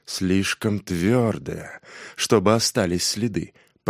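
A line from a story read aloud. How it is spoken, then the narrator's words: Muttering under breath. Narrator (Russian): пробормотал он себе под нос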